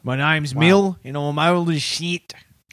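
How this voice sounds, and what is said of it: Put-on Australian accent. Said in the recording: “you might take that Australian accent back”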